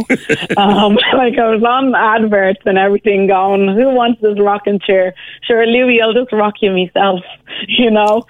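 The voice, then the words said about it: Caribbean accent. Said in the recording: “About your accent. Maybe the hint is in your Instagram name.”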